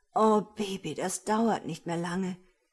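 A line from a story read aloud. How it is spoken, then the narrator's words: Moaning. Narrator (German): stöhnte Jules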